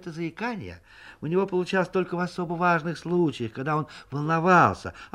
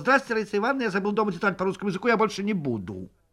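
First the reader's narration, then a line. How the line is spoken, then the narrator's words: Smooth and fast. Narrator (Russian): гладко и быстро выговаривал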